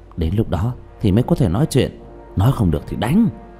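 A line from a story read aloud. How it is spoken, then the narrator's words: Quiet voice. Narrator (Vietnamese): Trương Vô Sanh nhỏ giọng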